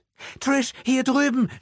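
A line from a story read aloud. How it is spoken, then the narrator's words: Shouted. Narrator (German): schrie Michelle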